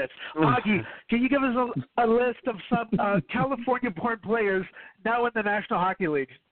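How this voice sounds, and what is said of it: Yelling. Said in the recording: “Sorry that I'm yelling at you right now”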